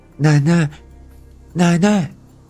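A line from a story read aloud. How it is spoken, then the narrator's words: Loud reply. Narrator (Chinese): 我大声的答应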